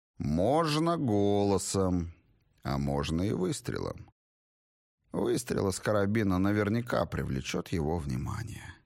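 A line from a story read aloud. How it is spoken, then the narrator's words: Flat, expressionless voice. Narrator (Russian): уточнил Грок еще более невыразительным голосом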